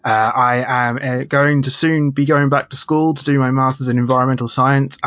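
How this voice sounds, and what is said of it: British accent. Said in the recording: “If you can hear from my accent, I am from the UK.”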